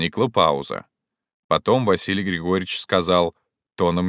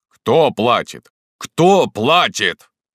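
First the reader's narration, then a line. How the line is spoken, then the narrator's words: Growling. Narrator (Russian): рычал Василий Григорьевич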